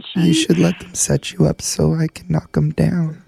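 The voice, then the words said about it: Creepy voice. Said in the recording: “that's just a creepy voice”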